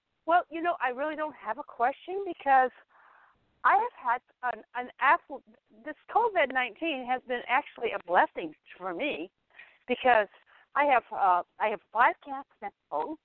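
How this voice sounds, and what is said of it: Out of breath, breathless speech. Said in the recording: “You're all out of breath.”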